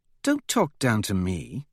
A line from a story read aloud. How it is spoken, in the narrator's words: she says sharply